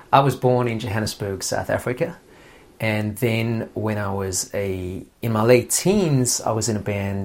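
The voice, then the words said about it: South African accent, partly English. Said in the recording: “I've got this accent that's partly South African. I still think it's fully South African... a lot of people seem to think that I'm British or Australian”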